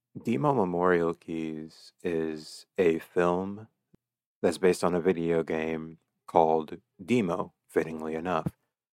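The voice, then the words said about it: Groggy, slightly unnatural voice. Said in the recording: “my voice sounds a little unnatural, I just woke up”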